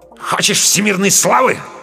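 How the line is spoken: Angry, curt. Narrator (Russian): зло бросил Камов вслед

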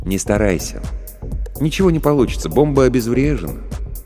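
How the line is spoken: Soft. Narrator (Russian): мягко произнес я

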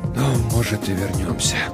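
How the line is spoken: Barely audible whisper. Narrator (Russian): прошептал он так тихо, что я едва расслышал

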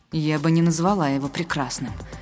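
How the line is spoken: Gloomy objection. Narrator (Russian): мрачно возразила я

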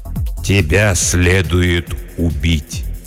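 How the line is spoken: Slow, deliberate. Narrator (Russian): медленно произнес владыка Лориэна

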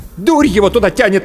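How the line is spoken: Angry reply. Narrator (Russian): зло ответила Анна

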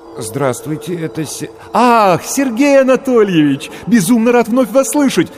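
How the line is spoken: Happy rapid chatter. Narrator (Russian): радостно затараторил голос

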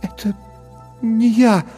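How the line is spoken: Stammering whisper. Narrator (Russian): запинаясь, прошептала Лекса

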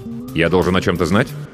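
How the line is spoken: Sharp question. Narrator (Russian): резко спросил я

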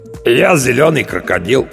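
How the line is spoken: Hoarse, cracking young bass. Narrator (Russian): подтвердил Сэм хриплым, ломающимся баском

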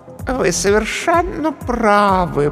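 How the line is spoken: Cooing. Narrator (Russian): проворковала комедия

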